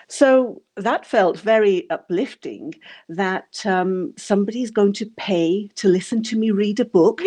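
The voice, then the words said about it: English accent. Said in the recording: “still have that um, uh, rock solid English accent”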